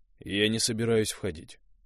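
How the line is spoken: Dry. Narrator (Russian): сообщил Дима сухо

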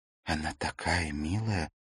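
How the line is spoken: Whisper. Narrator (Russian): прошептала Ракель

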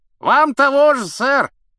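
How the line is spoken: Knight shouting. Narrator (Russian): крикнул рыцарь

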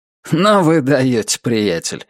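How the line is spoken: Amused grunt. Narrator (Russian): хмыкнул Альберт

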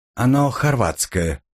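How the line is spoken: Neutral tone. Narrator (Russian): нейтральным тоном сообщила она

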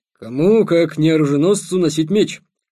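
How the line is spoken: Grumbling. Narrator (Russian): сказал Никита ворчливым тоном

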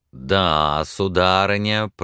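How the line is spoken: Drawling. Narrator (Russian): протянул он

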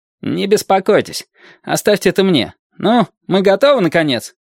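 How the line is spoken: Displeased question. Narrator (Russian): недовольным тоном спросил Драм

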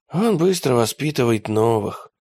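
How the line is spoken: Sighing. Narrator (Russian): вздохнул Макиавелли

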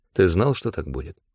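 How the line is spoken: Glum question. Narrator (Russian): уныло спросил я

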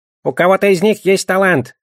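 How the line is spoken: Squeaky sorcerer voice. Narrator (Russian): пропищал колдун

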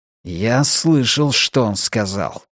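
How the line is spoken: Hissed. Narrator (Russian): прошипел он

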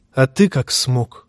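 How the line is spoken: Quiet question. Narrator (Russian): тихо спросил Лансель

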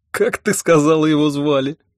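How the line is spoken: Snorted. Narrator (Russian): фыркнул я

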